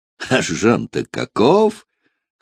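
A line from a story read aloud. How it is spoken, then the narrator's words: Laughing. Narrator (Russian): хохотал граф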